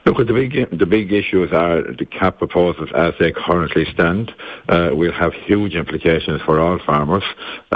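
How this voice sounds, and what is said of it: Hoarse voice. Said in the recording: “I'm a bit hoarse”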